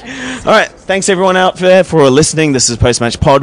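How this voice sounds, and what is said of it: Hoarse, strained voice. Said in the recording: “My voice is gone because I've been singing all game long”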